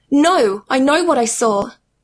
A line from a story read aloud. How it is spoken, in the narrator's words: Annabeth cried